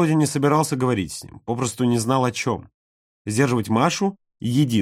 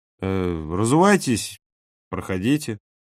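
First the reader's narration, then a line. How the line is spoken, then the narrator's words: Timid offer. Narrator (Russian): робко предложил Толя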